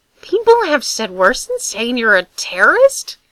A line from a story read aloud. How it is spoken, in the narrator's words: He said, his voice rising to an unfortunate pitch